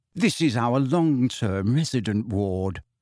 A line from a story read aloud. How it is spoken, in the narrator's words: she informed in a low voice